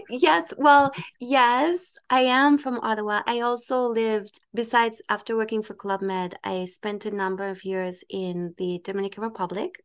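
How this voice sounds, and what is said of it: Slight non-Ottawa accent. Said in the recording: “I'm detecting a slight accent from you, and it doesn't sound like an Ottawa accent”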